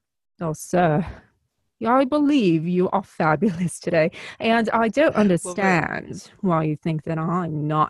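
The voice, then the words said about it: Put-on Mid-Atlantic 1950s film accent. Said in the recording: “I get to use the, like, accent. ... I would practice the Mid-Atlantic ... 1950s screen star”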